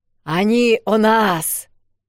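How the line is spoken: Roar. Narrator (Russian): взревел один из орков, который вдруг почему-то обрел способность говорить

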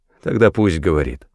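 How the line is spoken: Plain. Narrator (Russian): сказал я

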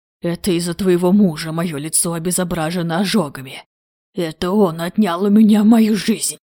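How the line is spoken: Snake-like hiss. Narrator (Russian): его голос больше походил на шипение ядовитой змеи

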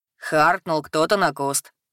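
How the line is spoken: Chuckling. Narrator (Russian): хохотнул Картон

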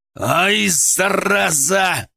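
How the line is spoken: Growled. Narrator (Russian): прорычал я

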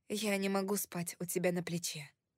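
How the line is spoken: Plain. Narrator (Russian): сказала я

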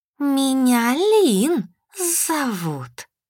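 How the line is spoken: Girl hissing. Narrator (Russian): зашипела хвостатая девушка

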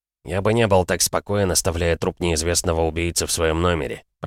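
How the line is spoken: Muttered. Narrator (Russian): пробормотал Мортон

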